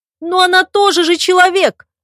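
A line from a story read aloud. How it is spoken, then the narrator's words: Wailing young woman. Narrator (Russian): взвыла девушка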